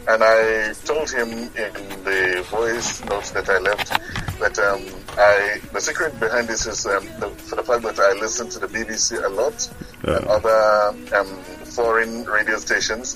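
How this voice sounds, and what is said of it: British-sounding accent. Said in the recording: “It doesn't sound Nigerian. ... It sounds British, actually. ... I have a sort of British accent”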